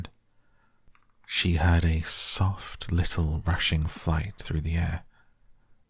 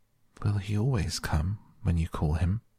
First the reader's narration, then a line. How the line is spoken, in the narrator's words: she asked, almost in a whisper